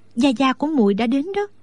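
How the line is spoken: Frightened trembling whisper. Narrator (Vietnamese): Đinh Đan mặt mày thất sắc, toàn thân run rẩy, nói rất khẽ

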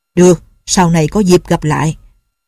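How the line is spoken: Cold, scoffing. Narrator (Vietnamese): Dư Thương Hải lạnh lùng hừ một tiếng rồi nói

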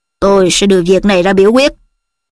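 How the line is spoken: Cold. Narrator (Vietnamese): Ông Crouch lạnh lùng nói

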